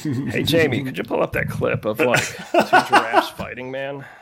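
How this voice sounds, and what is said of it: Imitates another person's voice. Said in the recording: “hilarious. Good impression. ... it's hard to do that voice.”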